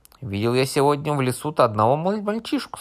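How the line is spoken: Plain. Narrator (Russian): сказал большой брат

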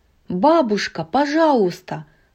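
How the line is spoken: Pleading exclamation. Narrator (Russian): воскликнула Мирабель

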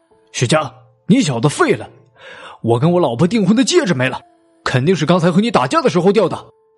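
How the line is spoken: Sudden loud clamor. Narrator (Chinese): 韩天宇忽然大声嚷了起来

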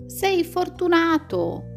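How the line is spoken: Friend exclaiming. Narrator (Italian): l'amico esclama ancora una volta

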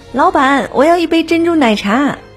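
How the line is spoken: Loud yelling. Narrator (Chinese): 大声叫嚷着

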